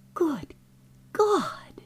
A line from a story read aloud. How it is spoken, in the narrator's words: he breathed